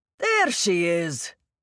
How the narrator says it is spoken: boomed

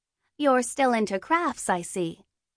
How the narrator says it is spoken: said brightly

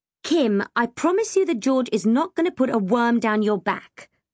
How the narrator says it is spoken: I said firmly

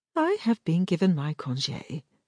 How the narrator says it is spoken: her cousin said cheerfully

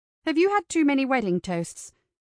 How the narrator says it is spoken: Ava blurted

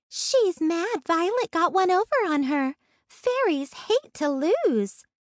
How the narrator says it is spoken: she said cheerfully

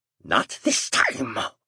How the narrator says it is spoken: Fartian growled

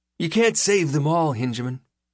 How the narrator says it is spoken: says Skem brightly

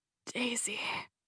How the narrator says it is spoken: whispered

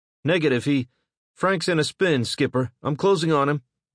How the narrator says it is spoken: Gus shouted

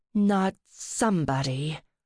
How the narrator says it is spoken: Ruby growled

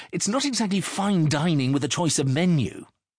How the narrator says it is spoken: Marigold snapped

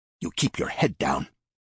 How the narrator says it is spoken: snapped

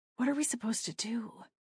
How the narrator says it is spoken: I asked, my voice barely above a whisper

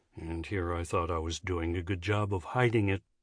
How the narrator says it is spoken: Finn muttered

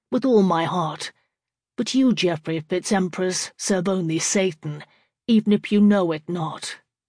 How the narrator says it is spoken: said evenly

